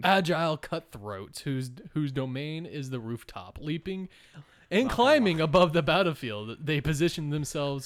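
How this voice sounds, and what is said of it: Dramatic narrator voice. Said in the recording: “narrator... I'm doing my narrating voice.”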